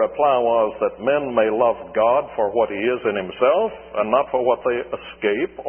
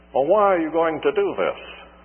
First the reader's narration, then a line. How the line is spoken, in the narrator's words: asked the sheikh